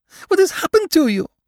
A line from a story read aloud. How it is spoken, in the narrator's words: She cried distractedly